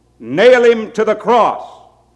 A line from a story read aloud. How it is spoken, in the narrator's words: they started shouting at the top of their voices